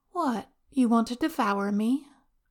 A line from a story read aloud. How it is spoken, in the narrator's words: Wei Wuxian sighs